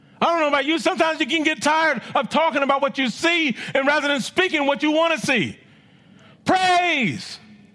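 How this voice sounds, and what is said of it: Loud, yelling preaching voice. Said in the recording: “Sorry if I'm yelling. ... you are loud in the morning. ... I am loud.”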